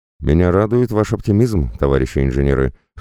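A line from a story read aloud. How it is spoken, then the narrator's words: Snorting. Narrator (Russian): хмыкнул верховный шаман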